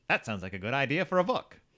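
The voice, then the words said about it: Put-on Mid-Atlantic accent. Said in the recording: “Why is that the voice you use for every single person in this time period? ... Mid-Atlantic accent. Paying tribute to all the wonderful actors of the 1930s and 40s.”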